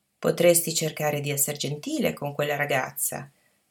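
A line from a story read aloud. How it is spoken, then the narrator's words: Plain. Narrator (Italian): disse al nipote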